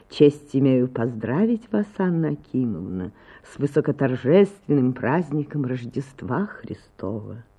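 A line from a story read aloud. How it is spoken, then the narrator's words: Pleasant honeyed voice. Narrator (Russian): сказал своим приятным медовым голосом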